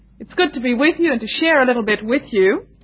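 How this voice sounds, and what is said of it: Indian English accent. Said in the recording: “I come from India, that's my home, so you will excuse my accent a little bit.”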